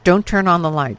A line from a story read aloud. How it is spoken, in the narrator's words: her father said harshly